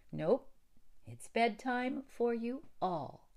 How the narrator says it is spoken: said Theodora firmly

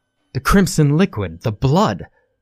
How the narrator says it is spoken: shouted

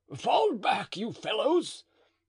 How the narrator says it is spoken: Mousqueton shouted

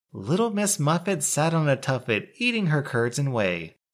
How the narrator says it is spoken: bursting into maniacal laughter

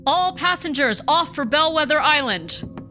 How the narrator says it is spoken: First Mate Bowers shouted

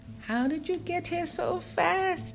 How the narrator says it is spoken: Chi-Chi shouted, laughing

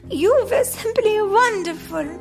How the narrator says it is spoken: she cried

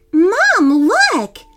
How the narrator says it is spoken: Andrew squealed

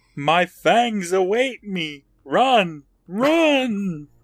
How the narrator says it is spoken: Nightwing isn't too far behind them, and he yells

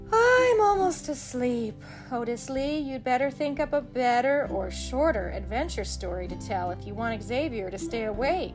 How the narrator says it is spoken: Suddenly, Sybil Sadie yawned loudly and said

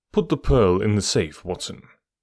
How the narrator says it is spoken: said he

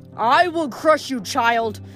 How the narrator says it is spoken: Kronos bellowed

